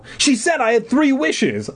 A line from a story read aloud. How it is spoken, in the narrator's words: I exclaimed